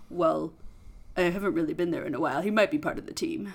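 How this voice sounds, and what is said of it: Poor imitation of Thor's voice. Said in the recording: “That's my awful Thor impression.”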